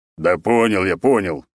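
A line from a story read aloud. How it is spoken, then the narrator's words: Displeased deep bass. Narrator (Russian): недовольно пробасил он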